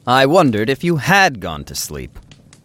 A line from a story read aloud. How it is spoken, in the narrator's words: I said a little crossly